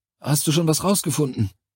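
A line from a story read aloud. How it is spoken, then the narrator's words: Panting voice. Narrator (German): Seine Stimme klang keuchend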